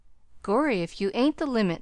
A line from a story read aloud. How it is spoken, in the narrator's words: chuckled the youth unexpectedly